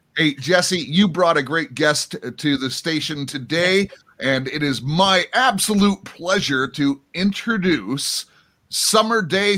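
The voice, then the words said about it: Polished radio announcer voice. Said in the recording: “you have the greatest voice to be interviewing people. You have such an amazing radio voice”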